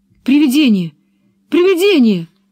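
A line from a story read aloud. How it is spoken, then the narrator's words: Terrified shout. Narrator (Russian): крикнул он в ужасе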